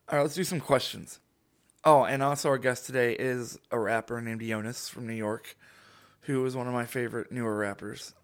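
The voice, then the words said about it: Hoarse, strained, sick-sounding voice. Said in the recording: “losing my voice. I hate the way it sounds because, like, I feel sick.”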